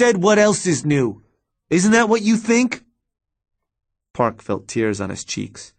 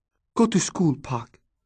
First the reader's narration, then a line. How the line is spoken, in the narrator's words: his mom said softly